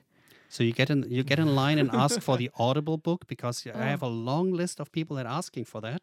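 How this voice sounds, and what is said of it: German accent. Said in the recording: “the German accent”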